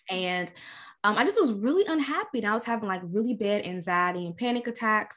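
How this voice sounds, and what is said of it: Kentucky Southern accent. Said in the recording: “I'm from Louisville, Kentucky. If you can't tell from the accent.”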